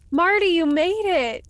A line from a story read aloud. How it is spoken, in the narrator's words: she exclaimed